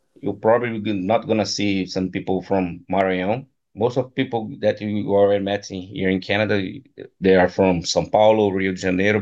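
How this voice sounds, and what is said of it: Brazilian accent. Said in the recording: “I'm sure everybody can tell from your accent, you're Brazilian ... Anybody who does jiu-jitsu, they know the accent.”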